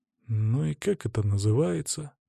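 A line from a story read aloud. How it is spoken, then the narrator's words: Grumbled. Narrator (Russian): пробурчал я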